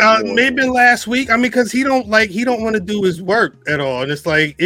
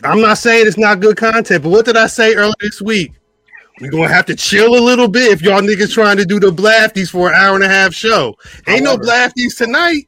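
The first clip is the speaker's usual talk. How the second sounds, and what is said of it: Yelling, loud raised voice. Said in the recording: “why are you yelling? Why are you yelling,”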